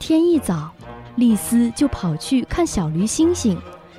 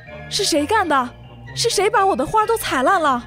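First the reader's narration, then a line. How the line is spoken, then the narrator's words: Angry shout. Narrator (Chinese): 尼斯夫人气愤地喊道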